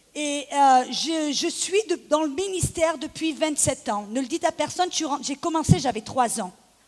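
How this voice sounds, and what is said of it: Slight southern French accent. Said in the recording (French): “Je suis née à Aix-en-Provence. Vous allez peut-être entendre mon petit accent.”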